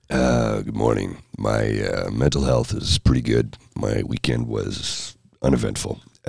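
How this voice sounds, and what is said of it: Lower, growly congested voice. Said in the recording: “hear it in my voice ... it lowers my voice a little bit and gives it a different timbre ... a little extra growl ... Growly, growly”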